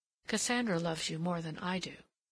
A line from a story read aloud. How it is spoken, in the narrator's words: her murmur